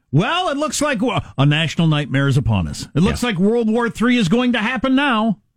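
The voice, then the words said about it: Mock cable news anchor voice. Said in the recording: “my imitation of cable news, if cable news had existed at the time in the way that it does now”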